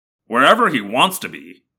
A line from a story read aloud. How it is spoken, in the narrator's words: Marco muttered darkly